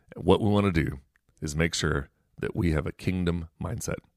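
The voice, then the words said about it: Strained, unwell-sounding voice. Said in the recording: “hopefully by then my voice is a little bit better.”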